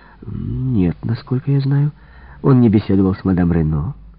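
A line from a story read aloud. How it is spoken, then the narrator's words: Completely calm. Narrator (Russian): Мадам Добрейль совершенно спокойно ответила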